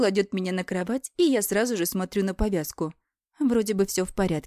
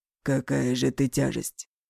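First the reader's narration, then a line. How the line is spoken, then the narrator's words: Hoarse chuckle. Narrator (Russian): Хрипло усмехается он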